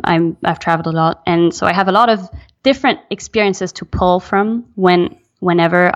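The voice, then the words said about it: Slight French accent. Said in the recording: “I have a bit of an accent. ... I'm French. I'm American. I grew up in Belgium.”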